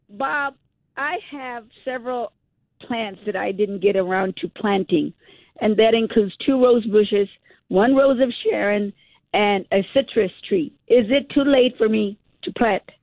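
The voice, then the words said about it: Congested, allergy-affected voice. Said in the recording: “Excuse my voice. I've got allergies today.”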